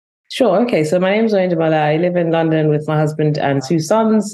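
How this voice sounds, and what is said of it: London accent. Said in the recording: “you have this great London accent”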